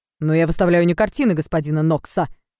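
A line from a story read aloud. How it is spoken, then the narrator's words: Irritated declaration. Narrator (Russian): раздраженно заявил торговец игрушками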